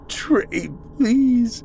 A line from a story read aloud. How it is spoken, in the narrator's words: Celeste cried